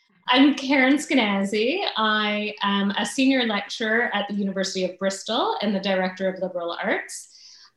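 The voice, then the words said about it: American accent. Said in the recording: “You're in Birmingham with that accent? ... Don't let my accent fool you.”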